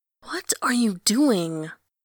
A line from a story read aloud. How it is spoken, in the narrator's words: Someone hisses behind him